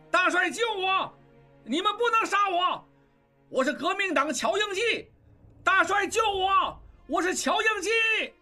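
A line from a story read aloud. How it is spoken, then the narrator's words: Frantic shouting. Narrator (Chinese): 喊声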